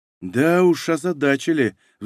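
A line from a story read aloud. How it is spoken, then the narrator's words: Sighing. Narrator (Russian): вздохнула Юлия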